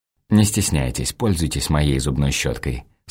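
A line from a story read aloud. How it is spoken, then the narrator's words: Slightly mocking. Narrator (Russian): слегка насмешливо говорю я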